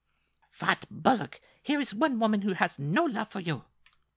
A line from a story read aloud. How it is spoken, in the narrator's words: cried Mademoiselle Lupa